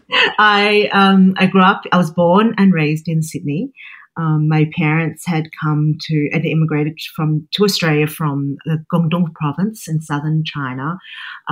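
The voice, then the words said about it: Australian accent. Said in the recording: “as you can hear, I have an Australian accent”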